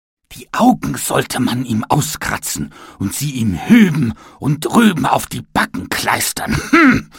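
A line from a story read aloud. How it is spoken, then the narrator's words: Angry shout. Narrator (German): schrie er wütend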